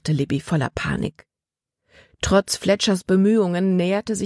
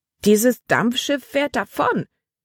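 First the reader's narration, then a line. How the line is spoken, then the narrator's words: Crying out. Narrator (German): schrie Libby auf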